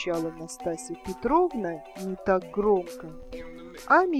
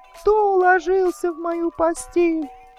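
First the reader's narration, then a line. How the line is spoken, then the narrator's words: Terrified piercing squeal. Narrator (Russian): завизжал так, как будто его режут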